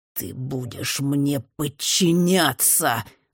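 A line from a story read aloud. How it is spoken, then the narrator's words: Growling. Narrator (Russian): рычал Джимми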